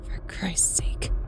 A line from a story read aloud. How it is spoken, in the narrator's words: she muttered